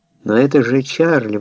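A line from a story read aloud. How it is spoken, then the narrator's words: Exclamation. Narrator (Russian): воскликнул я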